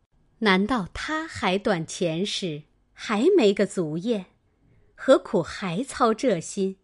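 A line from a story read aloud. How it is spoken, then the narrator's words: Laughing. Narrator (Chinese): 平儿笑道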